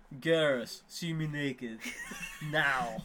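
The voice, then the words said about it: Vague generic Eastern European accent. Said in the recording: “those particular vague and generic accents... Eastern European porno”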